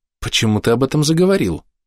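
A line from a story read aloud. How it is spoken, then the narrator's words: Surprised. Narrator (Russian): удивилась архидемонесса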